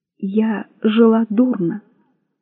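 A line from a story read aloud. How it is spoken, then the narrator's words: Tearful. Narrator (Russian): заговорила она сквозь слезы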